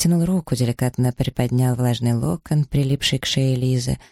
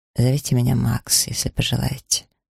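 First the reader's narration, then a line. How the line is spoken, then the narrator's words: Quiet. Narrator (Russian): произнес он так же тихо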